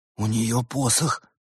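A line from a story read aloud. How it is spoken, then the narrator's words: Trembling whisper. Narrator (Russian): прошептал дрожащий Свен дрожащему Ларсу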